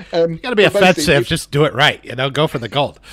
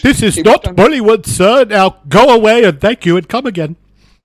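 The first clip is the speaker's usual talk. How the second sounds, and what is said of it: Put-on Indian accent. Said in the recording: “I was going to do that in an Indian accent”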